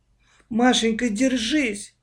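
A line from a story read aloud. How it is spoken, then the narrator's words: Moaning. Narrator (Russian): простонала Аня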